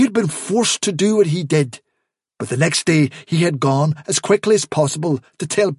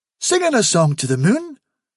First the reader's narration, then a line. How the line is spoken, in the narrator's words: said Hufsa eagerly